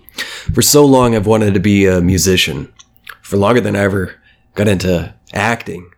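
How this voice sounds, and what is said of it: Scratchy, congested speaking voice. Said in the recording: “I'm a little sick, so that's why my voice sounds kind of fucked up ... speaking's a little scratchy ... sinus allergy problems, and I've got drainage”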